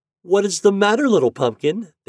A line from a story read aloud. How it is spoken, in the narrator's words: cried